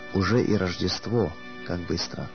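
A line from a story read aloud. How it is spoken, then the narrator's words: Trembling voice. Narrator (Russian): дрожащим голосом он проговорил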